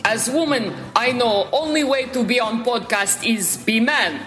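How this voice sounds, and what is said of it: Put-on Russian woman character voice. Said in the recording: “Olga from Moscow.”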